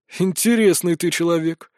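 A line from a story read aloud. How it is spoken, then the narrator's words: Sigh over phone. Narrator (Russian): вздохнули на том конце несуществующего провода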